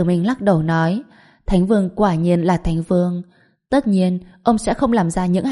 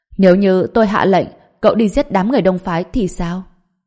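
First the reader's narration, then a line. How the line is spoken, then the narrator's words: Loud laughing. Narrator (Vietnamese): Thành Vương cười lớn nói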